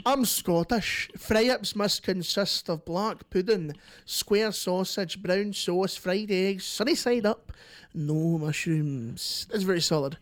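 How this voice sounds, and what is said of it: Put-on Scottish accent. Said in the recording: “May I do the accent? ... You do the accent. ... this is from a Scottish person”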